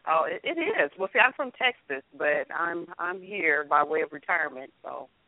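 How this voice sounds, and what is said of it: Texan Southern accent. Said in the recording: “You heard that Texan accent.”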